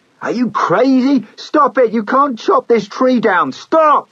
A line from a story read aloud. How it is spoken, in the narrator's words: screamed